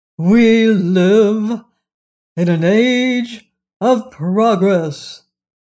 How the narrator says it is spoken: announced Professor Wogglebug pompously

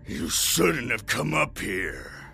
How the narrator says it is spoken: he grunted

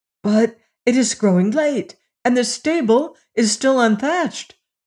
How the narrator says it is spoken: cried the prince, suddenly remembering his task

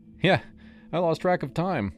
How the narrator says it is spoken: admitted, laughing it off

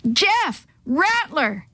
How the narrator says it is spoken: Chris and Sammy shattered the stillness with shouts

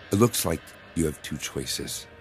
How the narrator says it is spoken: the woman said

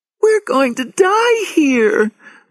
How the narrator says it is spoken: Lauren cried

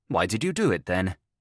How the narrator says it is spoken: asked, after a short pause, abruptly enough, but in a softer tone

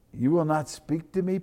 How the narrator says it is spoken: Pilate said

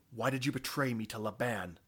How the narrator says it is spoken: Cronus croaked

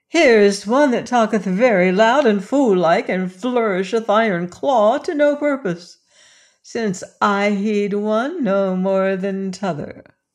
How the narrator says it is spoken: said she with a trill of laughter

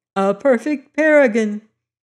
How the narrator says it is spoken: cried Elsie with a brittle laugh

